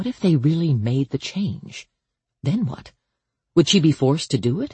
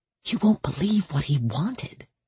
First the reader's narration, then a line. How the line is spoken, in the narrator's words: she whispered to Harper